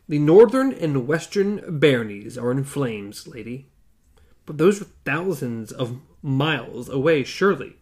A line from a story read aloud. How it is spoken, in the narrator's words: He paused and added gravely